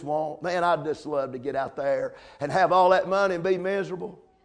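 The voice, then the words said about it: Sarcastic delivery. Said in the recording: “I said that sarcastically.”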